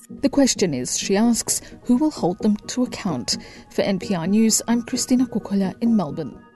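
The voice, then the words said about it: Australian accent. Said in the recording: “that's an Australian accent”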